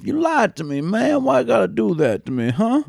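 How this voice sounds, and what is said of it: Southern drawl imitating another person. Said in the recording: “Steven Seagal sometimes likes to put on that southern drawl of”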